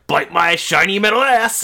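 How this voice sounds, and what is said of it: Cartoon robot character voice. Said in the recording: “Bender impersonations from Futurama”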